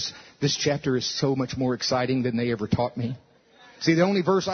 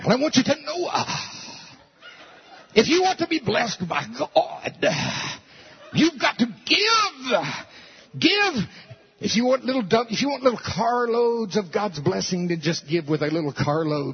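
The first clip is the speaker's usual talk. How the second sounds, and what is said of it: Impression of another preacher. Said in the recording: “my Noah impression”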